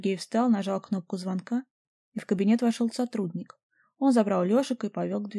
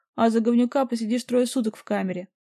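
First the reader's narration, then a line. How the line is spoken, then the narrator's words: Barked. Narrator (Russian): рявкнул Сергей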